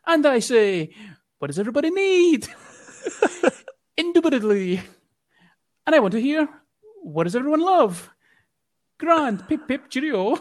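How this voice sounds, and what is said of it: Exaggerated posh English accent. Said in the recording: “just pulls out this stellar fucking English accent ... Apologies for the shite English accent there.”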